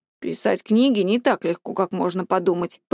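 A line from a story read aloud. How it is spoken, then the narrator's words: Grumbled. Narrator (Russian): пробурчал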